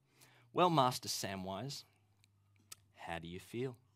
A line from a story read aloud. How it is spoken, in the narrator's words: said